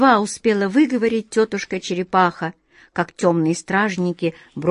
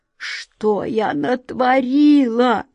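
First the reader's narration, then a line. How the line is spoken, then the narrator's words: Hoarse grating voice. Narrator (Russian): хрипло проскрежетала тетушка-черепаха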